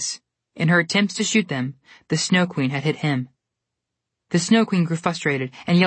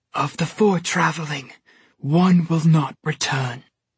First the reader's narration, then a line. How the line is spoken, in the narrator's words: the Snow Queen rasped